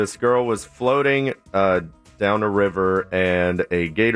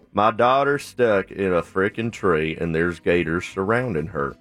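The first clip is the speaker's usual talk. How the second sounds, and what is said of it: Put-on regional local accent. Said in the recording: “say it in your Lake County voice.”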